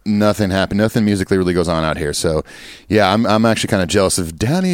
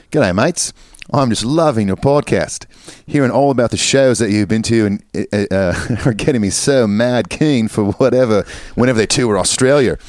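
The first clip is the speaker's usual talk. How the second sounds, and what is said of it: Put-on Australian accent. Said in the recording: “I guess I'm doing this in an Australian accent. ... I think you need to commit to it.”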